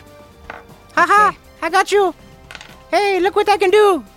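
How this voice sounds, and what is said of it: Super high-pitched character voice. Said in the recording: “a parasite that speaks in a super high voice”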